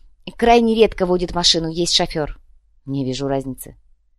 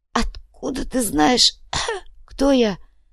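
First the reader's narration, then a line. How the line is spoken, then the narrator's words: Hoarse rasp. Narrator (Russian): прохрипел Инций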